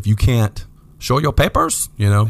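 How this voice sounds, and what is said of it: Bad put-on German Russian accent. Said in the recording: “I was trying to do like a German Russian like accent. ... It was just bad. ... Real bad. It was a real bad”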